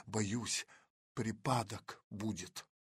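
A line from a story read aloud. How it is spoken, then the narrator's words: Whispered. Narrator (Russian): прошептала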